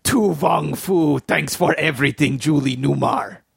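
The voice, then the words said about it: Harrison Ford-style Russian accent. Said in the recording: “in my Harrison Ford Russian accent”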